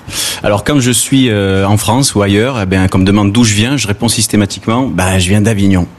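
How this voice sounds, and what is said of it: Southern French accent. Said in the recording (French): “vous l'entendez certainement, je suis d'ici ... je suis du Sud, j'ai l'accent du Sud ... toi tu as l'accent du Gard”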